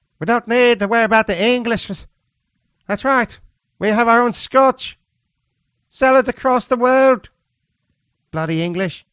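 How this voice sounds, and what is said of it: Put-on Scottish accent. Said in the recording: “a Scottish accent”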